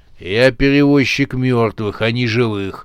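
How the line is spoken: Gloomy remark. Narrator (Russian): мрачно заметил он

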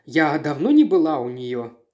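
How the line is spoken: Sighing female voice. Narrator (Russian): она вздохнула

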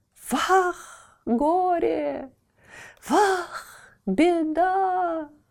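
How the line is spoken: Old women shrieking. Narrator (Russian): визжали старухи

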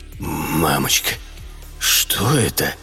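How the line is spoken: Trembling mutter. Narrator (Russian): пробормотал трясущимися губами

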